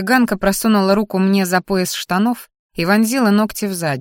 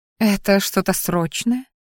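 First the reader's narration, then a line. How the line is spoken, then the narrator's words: Purring. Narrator (Russian): мурлыкнула она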